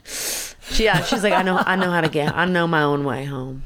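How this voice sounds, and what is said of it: Southern accent imitating Jami Gertz. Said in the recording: “She's got a real Southern accent. It's like so Southern.”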